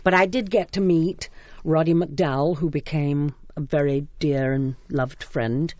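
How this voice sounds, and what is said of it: English accent. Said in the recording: “your English accent”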